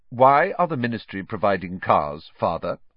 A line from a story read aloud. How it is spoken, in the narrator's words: Percy asked again in a dignified voice